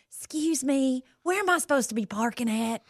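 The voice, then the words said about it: Put-on Southern accent. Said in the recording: “I throw on a Southern accent”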